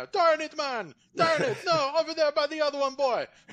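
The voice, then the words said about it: Put-on Jamaican accent. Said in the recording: “The Jamaican curling team would be amazing. ... I can imagine the accents right now.”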